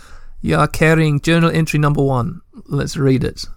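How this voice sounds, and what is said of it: Put-on South African accent. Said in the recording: “Do we keep on going in a South African accent? ... a dumb accent”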